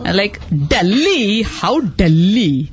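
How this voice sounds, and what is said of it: Put-on exaggerated Tamil accent. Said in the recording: “putting on that accent from this new movie coming out called Chennai Express. Because I'm a Tamilian.”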